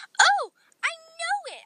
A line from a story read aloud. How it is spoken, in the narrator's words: I said excitedly